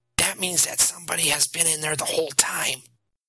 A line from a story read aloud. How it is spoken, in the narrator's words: he whispered